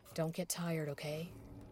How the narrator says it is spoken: softly said

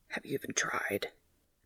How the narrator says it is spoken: Dean whispers

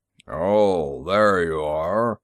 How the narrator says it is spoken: his bass rumbled

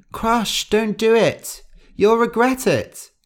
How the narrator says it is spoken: Gentle cried

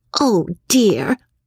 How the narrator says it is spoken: cried Margaret

